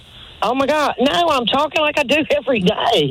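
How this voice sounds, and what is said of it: North Carolina Southern US accent. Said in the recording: “this is a North Carolina accent”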